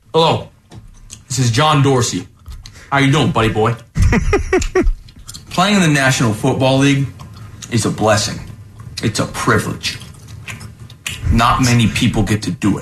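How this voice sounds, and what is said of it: Imitates another person's voice, gum-chewing. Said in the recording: “decided to do a little impression of him ... always chewing gum loudly ... That's a lot of gum.”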